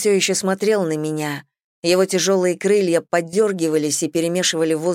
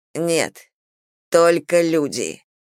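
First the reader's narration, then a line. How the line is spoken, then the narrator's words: Growling. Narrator (Russian): прорычал он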